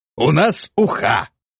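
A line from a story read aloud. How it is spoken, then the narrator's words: Bursting into laughter. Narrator (Russian): И вновь разразился хохотом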